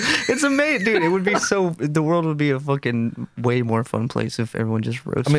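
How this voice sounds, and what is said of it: Usual voice. Nothing is said of it.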